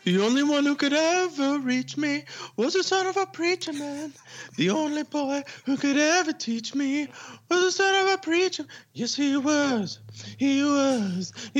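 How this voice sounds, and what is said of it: Breathy half-falsetto singing. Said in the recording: “some falsetto there... you were kind of in between. You weren't even full falsetto... Very breathy”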